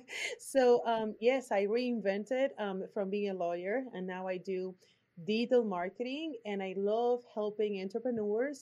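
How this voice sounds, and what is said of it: Puerto Rican accent. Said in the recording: “My accent is from Puerto Rico”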